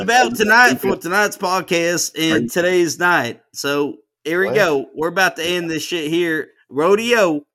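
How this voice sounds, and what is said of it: Put-on Southern US accent. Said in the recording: “the Texas accent ... this doesn't even sound like Texas ... it could be Kentucky”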